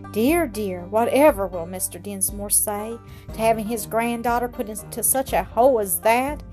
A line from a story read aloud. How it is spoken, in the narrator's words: exclaimed the housekeeper, half to herself